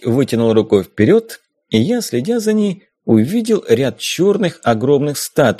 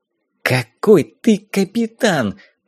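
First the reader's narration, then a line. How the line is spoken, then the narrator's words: Hissing. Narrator (Russian): прошипела Дейзи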